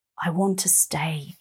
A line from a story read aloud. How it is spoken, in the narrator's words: whispers